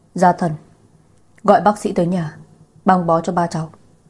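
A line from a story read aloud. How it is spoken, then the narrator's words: Old man's angry huffing. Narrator (Vietnamese): Ông cụ tức giận phì phò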